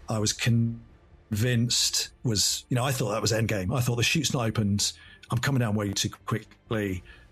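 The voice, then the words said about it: English accent. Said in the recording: “if you couldn't tell by his accent, he's from across the pond, merry old England”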